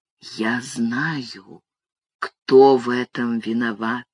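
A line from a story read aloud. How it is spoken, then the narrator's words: Whisper in the ear. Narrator (Russian): он шепнул мне на ухо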